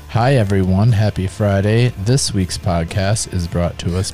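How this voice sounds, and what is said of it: Flat monotone delivery. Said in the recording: “Monotone”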